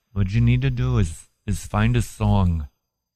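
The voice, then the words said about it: Imitates another person's voice. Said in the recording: “My impression of Deepak”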